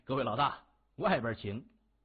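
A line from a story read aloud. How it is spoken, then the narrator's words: Sarcastic, mocking. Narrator (Chinese): 严学文笑呵呵的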